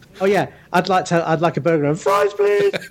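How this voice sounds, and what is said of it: High-pitched squeaky voice. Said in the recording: “you get that high pitched squeaking thing”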